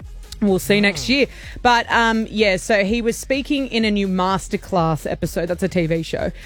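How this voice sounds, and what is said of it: Usual voice. Nothing is said of it.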